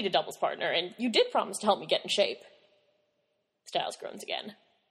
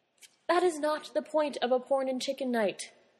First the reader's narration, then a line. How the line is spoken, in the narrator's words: Styles says solemnly